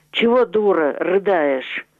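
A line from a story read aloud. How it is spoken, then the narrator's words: Menacing. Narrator (Russian): Синявский сказал грозно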